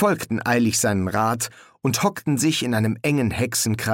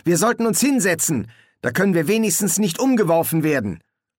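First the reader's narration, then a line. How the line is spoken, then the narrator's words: Call. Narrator (German): rief Stan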